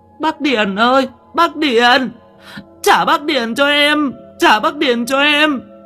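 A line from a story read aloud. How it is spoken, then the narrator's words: Wailing and sobbing. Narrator (Vietnamese): Con nhài gào mà khóc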